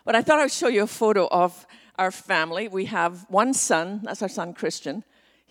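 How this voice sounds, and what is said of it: Scottish accent. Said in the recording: “my accent, ... I was born on the west coast of Scotland”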